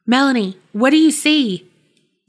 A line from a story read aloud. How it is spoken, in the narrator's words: James called out